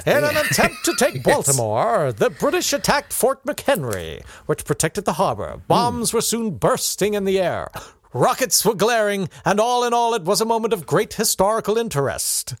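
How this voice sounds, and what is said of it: Put-on American historical narrator accent. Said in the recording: “I'm trying to do that. You remember we did that ages ago, the American historical ha-ha accent.”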